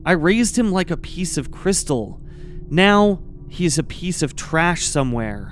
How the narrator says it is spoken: She reflected sadly

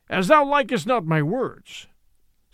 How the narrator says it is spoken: said the other fiercely

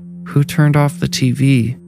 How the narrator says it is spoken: she asked drowsily

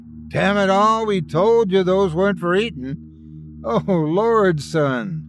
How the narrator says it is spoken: the man exclaimed

